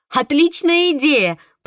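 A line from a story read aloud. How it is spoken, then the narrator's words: Laughing. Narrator (Russian): посмеялась София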